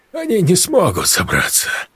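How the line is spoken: Relieved exhale. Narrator (Russian): с облегчением выдохнул Олег

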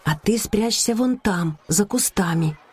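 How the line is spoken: Loud whisper. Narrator (Russian): Ника громко зашептав

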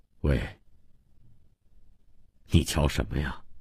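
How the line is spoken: Low reply. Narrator (Chinese): 那人低声回答

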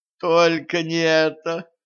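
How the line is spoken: Pleading. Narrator (Russian): взмолилась Катран

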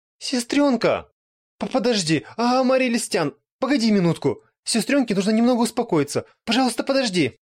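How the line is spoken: Tearful pleading. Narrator (Russian): она сама со слезами на глазах начала молить Амарилис

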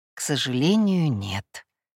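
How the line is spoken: Sympathetic sigh. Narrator (Russian): сочувственно вздохнул Микель

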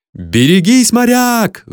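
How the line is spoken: Crowd roaring. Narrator (Russian): взревели тут зрители

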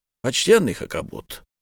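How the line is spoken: Calm reply. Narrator (Russian): спокойно ответил капитан Сервадак

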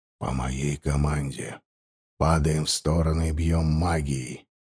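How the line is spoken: Whisper. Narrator (Russian): прошептал

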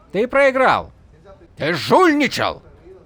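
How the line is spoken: Spluttering shout. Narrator (Russian): Крикнул Саленор, брызгая слюной

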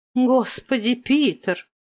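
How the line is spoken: Gasp. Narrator (Russian): Последняя ахнула

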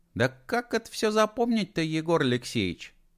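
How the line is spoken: Cheerful mock dismay. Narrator (Russian): Весело огорчилась Талка

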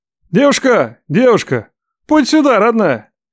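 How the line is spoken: Loud bark across room. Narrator (Russian): Гаркнул лев на все кафе

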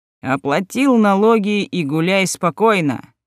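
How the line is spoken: Said, then laughing. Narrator (Russian): сказал его брат и рассмеялся

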